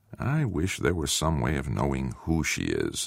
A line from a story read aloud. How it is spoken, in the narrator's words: the curator mumbled